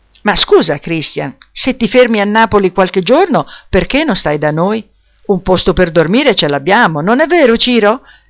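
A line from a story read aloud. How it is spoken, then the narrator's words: Mother exclaiming. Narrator (Italian): esclamò la mamma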